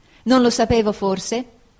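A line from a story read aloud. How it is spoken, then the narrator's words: Exclaimed. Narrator (Italian): esclamai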